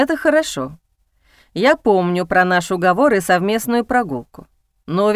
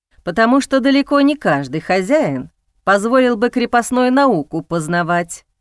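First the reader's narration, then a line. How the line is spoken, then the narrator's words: Calm reply. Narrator (Russian): спокойно отозвался князь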